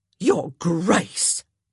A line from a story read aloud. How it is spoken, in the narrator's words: Nurse Hopkins said indignantly